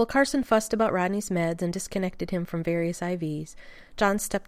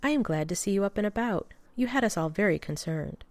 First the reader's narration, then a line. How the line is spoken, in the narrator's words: she said, smiling gently